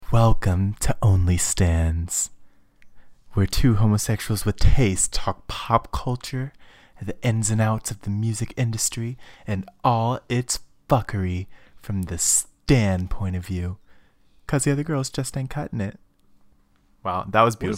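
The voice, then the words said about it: Female wrestling announcer voice. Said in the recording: “What is this voice? What is this voice? ... That was my impression of your sexy voice. ... That was my wrestling announcer voice. ... my female wrestling announcer voice.”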